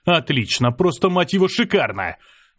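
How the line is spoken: Yelling. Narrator (Russian): заорал

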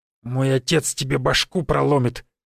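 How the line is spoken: Angry through clenched teeth. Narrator (Russian): сквозь зубы зло процедил пацан

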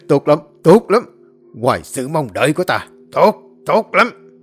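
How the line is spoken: Bursting into loud laughter. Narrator (Vietnamese): A Sùng phá lên cười lớn rồi nói

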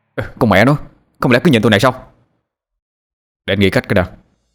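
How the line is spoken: Angry. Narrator (Vietnamese): Tôi tức giận ... rồi nói

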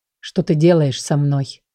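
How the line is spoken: Low chesty voice. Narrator (Russian): Низким грудным голосом проговорил он

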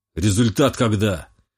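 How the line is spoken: Displeased growl. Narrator (Russian): недовольно рыкнул Романов

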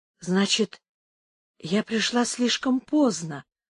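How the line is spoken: Whisper. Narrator (Russian): прошептала Инес

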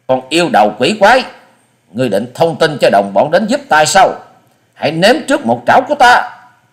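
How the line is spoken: Harsh shout. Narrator (Vietnamese): Quái nhân gằn giọng quát lên

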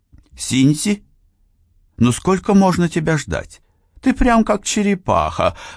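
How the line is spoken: Exclaimed. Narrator (Russian): воскликнула Акеми

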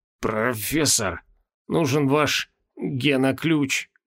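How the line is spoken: Hoarse wheeze. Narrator (Russian): прохрипел Моргнёв Мороз

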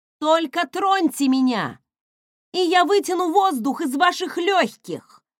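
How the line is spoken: Shouting at a crowd. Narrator (Russian): прокричала я толпе

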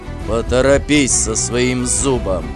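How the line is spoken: Husband growling. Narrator (Russian): прорычал муж

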